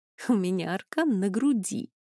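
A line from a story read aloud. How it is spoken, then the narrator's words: Giggling female confession. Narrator (Russian): хихикнув, призналась Камила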